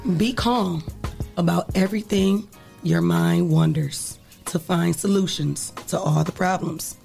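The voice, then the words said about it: Nearly lost, strained voice. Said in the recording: “My voice is gone. Usually, I change my voice, but I can't do it today. ... This is my holiday voice.”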